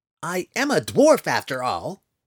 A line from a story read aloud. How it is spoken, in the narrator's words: he blurted, indignantly